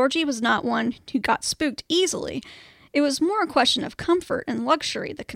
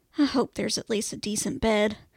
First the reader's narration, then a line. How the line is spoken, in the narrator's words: muttered to herself